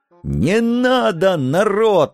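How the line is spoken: Panicked wail. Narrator (Russian): окончательно теряя голову, взвыл я

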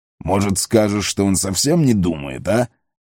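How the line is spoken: Snorting. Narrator (Russian): хмыкнул Углук

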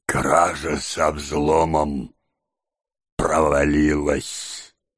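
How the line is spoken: Quiet. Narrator (Russian): тихо сказал Тоби

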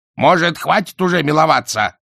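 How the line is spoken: Yelling over loud noise. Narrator (Russian): заорал Альберт, перекрикивая грохот песка

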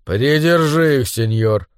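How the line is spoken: Gruff mutter. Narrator (Russian): буркнул толстяк

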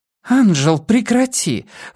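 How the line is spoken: Exclamation. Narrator (Russian): воскликнула Эллен Слоботник

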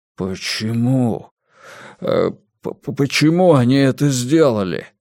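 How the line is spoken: Stammering faltering babble. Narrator (Russian): запинаясь, пролепетал Джан Юаньчао

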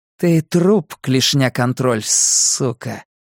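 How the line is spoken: Static-distorted voice. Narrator (Russian): Шипение помех

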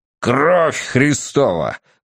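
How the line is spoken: Furious thundering roar. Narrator (Russian): прогремел, выходя из себя, Хадсон

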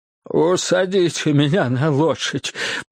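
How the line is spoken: Groaning. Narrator (Russian): простонал Джордж

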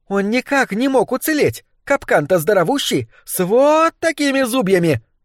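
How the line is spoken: Exclaiming. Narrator (Russian): воскликнула злокозня

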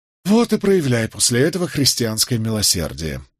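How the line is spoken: Sigh. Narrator (Russian): вздохнул я

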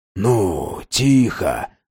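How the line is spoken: Whispering. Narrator (Russian): шептал он

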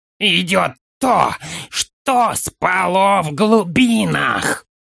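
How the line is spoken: Hoarse rasp, orc. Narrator (Russian): Прохрипел орк

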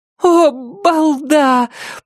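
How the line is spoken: Groan. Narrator (Russian): простонала она

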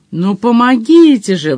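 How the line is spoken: Miserable wail. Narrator (Russian): взвыл несчастный Мадж

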